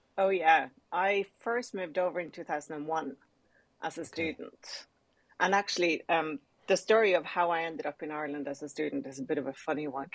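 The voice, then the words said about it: Slight Irish accent. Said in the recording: “I'm sensing a little bit of an Irish accent in there”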